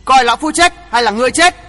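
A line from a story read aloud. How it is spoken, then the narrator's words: Roaring like a tiger. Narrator (Vietnamese): Côn Thế Ma Vương gầm lên như hổ dữ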